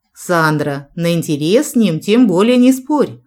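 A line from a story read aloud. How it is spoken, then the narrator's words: Snorting. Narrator (Russian): хмыкнул Джек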